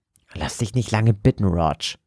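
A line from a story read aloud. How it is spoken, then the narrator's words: Hiss. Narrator (German): zischte Joseph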